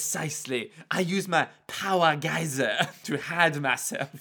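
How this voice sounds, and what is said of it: Usual voice. Nothing is said of it.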